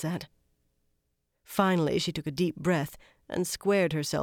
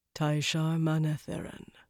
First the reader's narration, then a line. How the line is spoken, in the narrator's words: he said softly